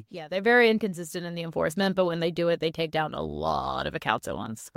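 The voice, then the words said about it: Scratchy, hoarse voice. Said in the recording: “my voice is still messed up. ... We're a little scratchy.”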